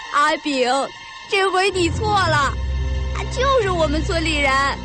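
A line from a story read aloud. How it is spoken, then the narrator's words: Child's teasing laugh. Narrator (Chinese): 孩子笑了，却存心逗阿炳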